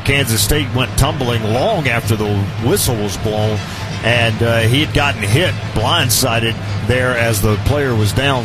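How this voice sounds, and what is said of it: American southern accent. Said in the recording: “Don't tell me I'm losing my southern accent... No, you'll never lose that.”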